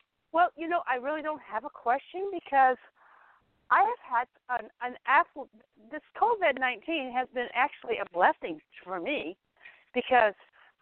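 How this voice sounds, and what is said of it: Out of breath, breathless speech. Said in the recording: “You're all out of breath.”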